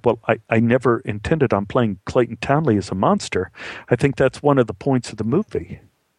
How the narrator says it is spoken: stammered a little bit and said

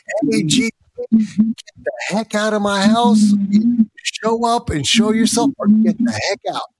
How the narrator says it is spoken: started yelling

